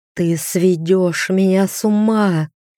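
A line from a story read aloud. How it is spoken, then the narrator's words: Moaning with pleasure. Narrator (Russian): простонал он, когда я провела языком по его груди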